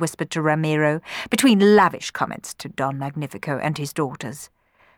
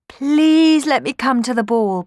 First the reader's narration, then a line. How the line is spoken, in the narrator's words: begged Cenerentola